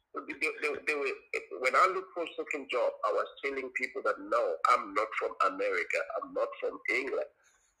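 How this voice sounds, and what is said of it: South African accent. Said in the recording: “I am a South African and this is how I sound”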